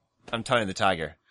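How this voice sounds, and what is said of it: Tony the Tiger voice, sounding Jamaican. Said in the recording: “You sounded Jamaican.”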